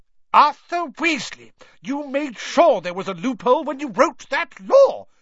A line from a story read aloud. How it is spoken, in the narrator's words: shouted Mrs